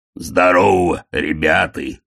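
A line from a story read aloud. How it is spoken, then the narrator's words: Booming. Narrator (Russian): прогудел Детрит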